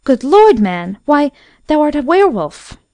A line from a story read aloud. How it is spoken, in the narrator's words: she cried out in terror